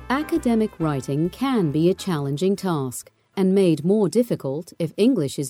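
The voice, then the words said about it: British accent. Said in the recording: “her distinctive accent that she hails from the old country across the pond ... British VO artists”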